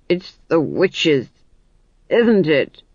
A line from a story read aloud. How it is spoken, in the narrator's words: he growled